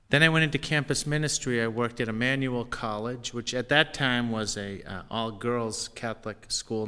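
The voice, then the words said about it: Boston accent. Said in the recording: “I'm a priest of the Archdiocese of Boston, as you can probably tell by my accent.”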